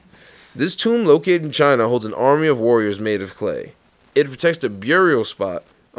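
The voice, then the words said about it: Thick New York accent. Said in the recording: “my New York accent. I feel like it's gotten ... heavier lately ... I definitely feel like my accent's way thicker now”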